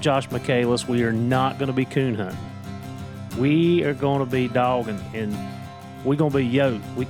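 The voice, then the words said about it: Southwest Virginia Appalachian accent. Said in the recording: “it's my accent, I'm telling you. It's the Southwest Virginia. ... it's that Appalachian slang ... It's pretty deep in the roots here.”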